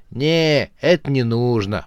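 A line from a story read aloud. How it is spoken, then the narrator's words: Drawling girl. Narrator (Russian): протянула девушка Панк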